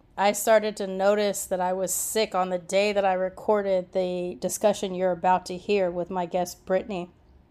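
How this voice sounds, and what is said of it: Sick, unwell-sounding voice. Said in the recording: “as you can hear from my voice, I'm still pretty sick ... I don't sound like myself”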